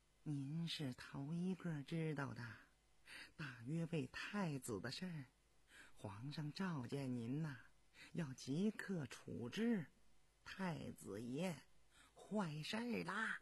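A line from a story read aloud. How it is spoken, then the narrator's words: Lowered voice. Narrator (Chinese): 李德全压低了嗓子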